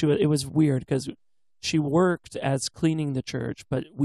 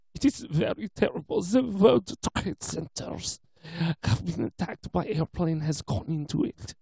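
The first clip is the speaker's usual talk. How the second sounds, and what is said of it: Imitated thick German accent. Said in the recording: “she has very thick German accent... I'm trying to be, like, paying homage to it because that's how thick it is... this thick German accent”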